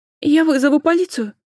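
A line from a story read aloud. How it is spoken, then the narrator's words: Frightened threat from above. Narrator (Russian): Испуганно пригрозили сверху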